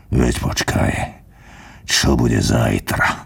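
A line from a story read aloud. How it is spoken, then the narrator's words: Quiet threat. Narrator (Slovak): potichu mu pohrozil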